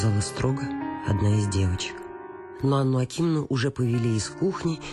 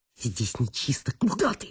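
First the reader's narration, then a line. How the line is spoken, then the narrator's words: Angry hiss. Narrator (Russian): прошипел Чаликов, глядя на нее со злобой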